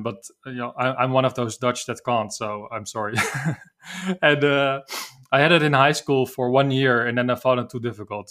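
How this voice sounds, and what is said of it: Dutch accent in English. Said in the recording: “I'm from the Netherlands as you probably can hear from my accent.”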